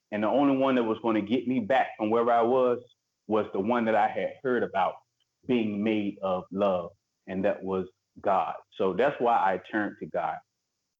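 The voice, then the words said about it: Preacher-like sermon tone. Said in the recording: “I hear that preacher voice in you ... I heard a preacher tone coming for towards the end of your talk.”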